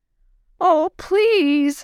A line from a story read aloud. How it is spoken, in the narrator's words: Lot sobbed